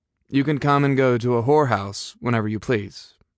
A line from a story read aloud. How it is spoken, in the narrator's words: he said flatly